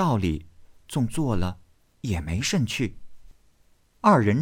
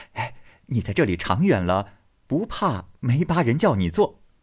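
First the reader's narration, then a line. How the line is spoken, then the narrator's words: Laughing. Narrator (Chinese): 宝玉笑道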